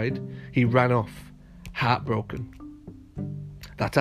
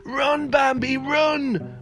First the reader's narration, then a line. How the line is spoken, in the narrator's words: Mina shouted